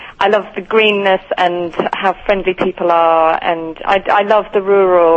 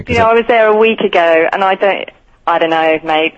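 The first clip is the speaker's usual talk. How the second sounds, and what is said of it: Put-on Australian accent. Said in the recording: “Could you pretend that you're still in Australia and speak to us in an Australian accent? ... That's fantastic.”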